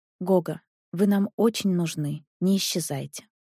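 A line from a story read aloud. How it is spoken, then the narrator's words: Whispered. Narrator (Russian): Александра сказала шепотом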